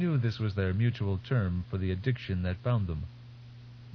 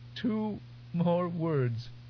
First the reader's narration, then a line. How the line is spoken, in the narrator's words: Between gasps, she said